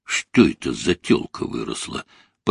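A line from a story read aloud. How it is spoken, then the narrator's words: Boar muttering. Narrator (Russian): пробормотал хряк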